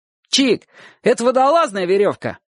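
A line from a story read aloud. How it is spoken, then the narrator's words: Boy shouting. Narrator (Russian): крикнул ему знакомый пацан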